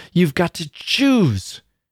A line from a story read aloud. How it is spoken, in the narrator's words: she cried, as if it were some terrible menace, and as if it hurt her that she could not exact more